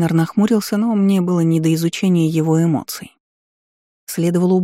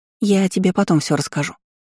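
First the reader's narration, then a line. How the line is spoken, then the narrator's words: Babbling, teasing secrecy. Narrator (Russian): пролепетала Иза, пытаясь сохранить интригу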